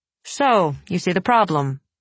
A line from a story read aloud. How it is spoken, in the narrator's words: he said now